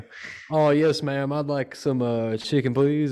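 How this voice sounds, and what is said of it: Put-on Southern US accent. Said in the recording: “my accent will come out sometimes ... Southerners don't all have that accent”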